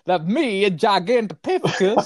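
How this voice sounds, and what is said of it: Imitates another person's voice. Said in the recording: “Christopher Walken doing the voice ... That's a brilliant impersonation.”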